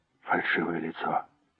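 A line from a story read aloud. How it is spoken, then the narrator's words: Whisper. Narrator (Russian): прошептал Дэнни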